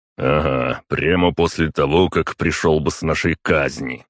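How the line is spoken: Grumbling, calming down. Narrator (Russian): пробурчал отец, постепенно остывая

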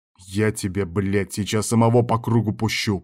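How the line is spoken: Angry growl. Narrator (Russian): прорычал шеф

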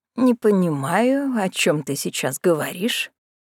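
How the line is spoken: Unusually wary voice. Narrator (Russian): произнесла миссис Карнеги таким настороженным голосом, какого я у нее никогда прежде не слышала

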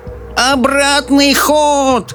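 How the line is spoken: Old woman yelling. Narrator (Russian): завопила бабушка Джорджина

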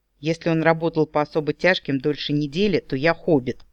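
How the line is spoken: Amused snort. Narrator (Russian): хмыкнул Брюс

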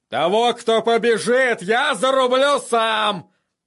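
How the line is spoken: Roaring. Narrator (Russian): проревел он

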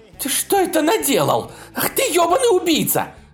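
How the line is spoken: Screaming. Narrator (Russian): закричала она

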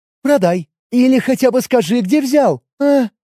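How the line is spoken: Near-moaning plea. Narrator (Russian): Чуть не застонала девушка

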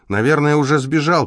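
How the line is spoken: Shout. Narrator (Russian): крикнул он

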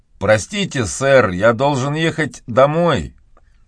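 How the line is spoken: Curt, clipped. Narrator (Russian): отрывисто проговорил Том

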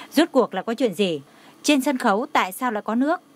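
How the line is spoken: Pained, angry question. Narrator (Vietnamese): Dì Lý đau lòng lại tức giận hỏi

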